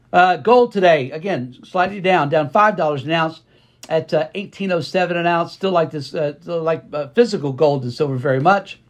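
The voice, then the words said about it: Slightly hoarse, strained voice. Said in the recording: “I've been on the phone literally all day today, losing my voice a little bit here.”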